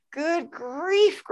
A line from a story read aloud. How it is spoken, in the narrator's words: groaned the ones who had stars at the first